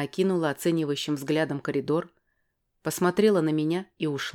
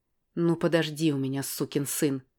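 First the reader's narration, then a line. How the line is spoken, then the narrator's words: Through gritted teeth. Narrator (Russian): процедила я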